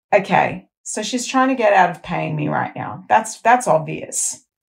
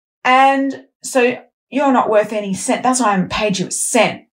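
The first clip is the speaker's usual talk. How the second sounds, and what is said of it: Put-on broad Bogan accent. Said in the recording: “I'm putting on the voice now, the Bogan voice.”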